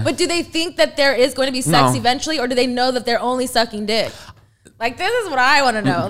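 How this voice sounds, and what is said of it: Loud, yelling, agitated speech. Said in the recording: “I feel like I'm yelling, my bad. ... You're mad about this.”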